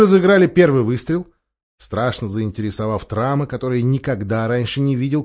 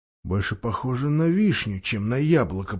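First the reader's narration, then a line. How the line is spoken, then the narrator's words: Silent inner whisper. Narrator (Russian): прошептал он, но вслух ничего не сказал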